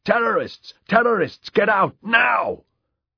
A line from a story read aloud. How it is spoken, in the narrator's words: In Italian, he shouted